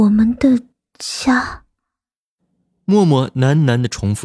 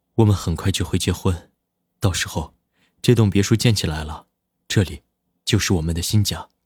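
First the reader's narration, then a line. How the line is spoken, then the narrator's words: Gentle. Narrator (Chinese): 南离川温柔的说道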